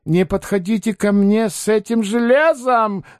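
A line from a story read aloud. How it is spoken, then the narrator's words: Shrieking. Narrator (Russian): завизжал Паниковский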